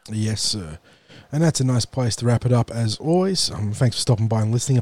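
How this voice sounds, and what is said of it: Raspy, nasal voice. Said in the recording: “Apologies for my raspy and nasally voice this week.”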